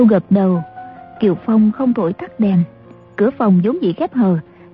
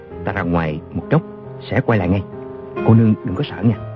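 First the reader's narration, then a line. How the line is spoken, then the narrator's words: Soft gentle reassurance. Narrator (Vietnamese): Chàng khẽ bảo A Châu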